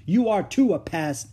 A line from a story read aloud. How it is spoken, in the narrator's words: Beezus yelled back